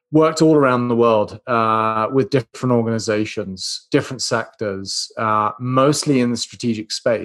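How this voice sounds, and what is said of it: British accent. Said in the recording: “You can tell from my accent, originally from the UK”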